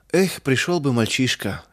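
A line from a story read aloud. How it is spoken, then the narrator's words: Helpless sigh. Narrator (Russian): вздохнул мельник, беспомощно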